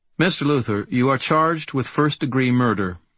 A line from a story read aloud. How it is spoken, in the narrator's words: the judge said, still in her rote memory voice